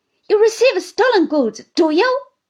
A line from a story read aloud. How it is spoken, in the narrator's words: cried Uriah